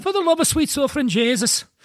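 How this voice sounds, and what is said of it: Put-on Irish accent. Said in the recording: “Can you do an Irish accent?”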